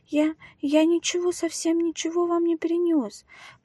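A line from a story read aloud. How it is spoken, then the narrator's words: Whispered. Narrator (Russian): прошептал он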